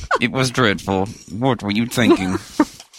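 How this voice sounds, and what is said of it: Robot voice. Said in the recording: “What is that voice ... It's my robot voice. It's very effective.”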